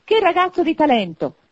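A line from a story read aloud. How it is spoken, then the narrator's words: Exclamation. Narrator (Italian): esclamò Scrooge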